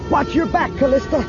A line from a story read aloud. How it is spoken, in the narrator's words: Luke yelled